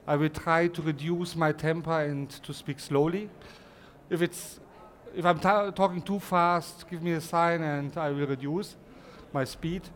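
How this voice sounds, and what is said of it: German accent. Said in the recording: “my German accent”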